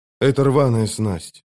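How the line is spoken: Lifeless voice. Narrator (Russian): безжизненным голосом проговорил он

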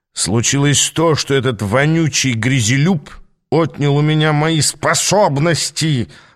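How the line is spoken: Furious roar. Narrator (Russian): Взревел он, потеряв самообладание

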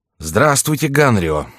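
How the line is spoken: Rather rude. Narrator (Russian): сказал молодой король довольно грубо

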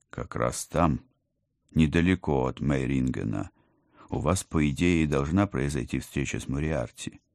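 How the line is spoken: Soft. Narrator (Russian): мягко начал командор

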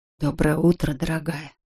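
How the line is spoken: Whispering. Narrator (Russian): прошептал Виктор

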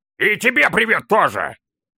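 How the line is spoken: Deafening bark. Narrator (Russian): Гаркнул он так, что у всех без исключения заложило уши

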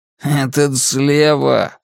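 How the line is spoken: Snorting. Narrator (Russian): фыркнул Джордж

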